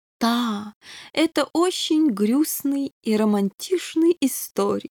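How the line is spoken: Sentimental drawl, king. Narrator (Russian): сентиментально протянул король

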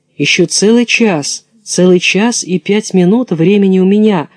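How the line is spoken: Plain. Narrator (Russian): говорит Золушка

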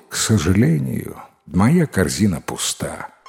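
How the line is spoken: Sighing young man. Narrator (Russian): Юноша вздохнул и ответил

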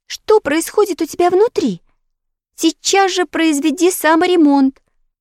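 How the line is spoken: Agitated girl's command, then crying. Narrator (Russian): Взволнованно приказала девочка и заплакала

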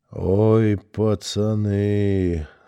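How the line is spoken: Husky voice. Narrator (Russian): сказал сипло

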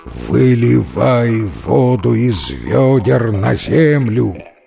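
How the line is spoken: Monster's bestial roar. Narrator (Russian): страшный див, и заревел он звериным голосом

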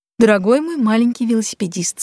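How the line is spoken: Plain. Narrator (Russian): сказал он

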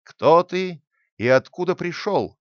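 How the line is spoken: Stern question, judge. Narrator (Russian): строго спросил его городской судья

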